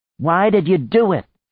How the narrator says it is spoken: she shouted

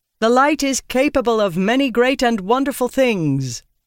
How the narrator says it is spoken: Lyra called out

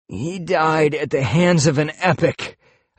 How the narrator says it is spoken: I said, groaning

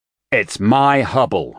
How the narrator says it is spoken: shouted Albert Rangier

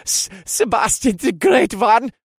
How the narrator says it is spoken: he said in a breathless voice

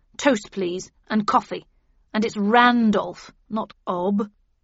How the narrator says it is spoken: he growled

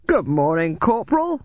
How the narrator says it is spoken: he said cheerfully

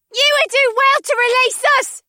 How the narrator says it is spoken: shrieked a woman

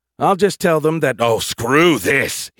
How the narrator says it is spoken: he snarled

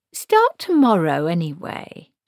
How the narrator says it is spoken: she said

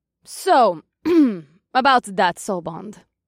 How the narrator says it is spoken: Ira said out of the blue

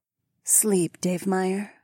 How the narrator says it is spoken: Fila purred

